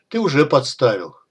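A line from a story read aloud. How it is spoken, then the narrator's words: Snorting. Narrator (Russian): фыркнул Исай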